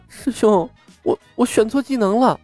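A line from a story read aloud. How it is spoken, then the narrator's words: Miserable whining. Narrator (Chinese): 冯公子 哭丧着脸道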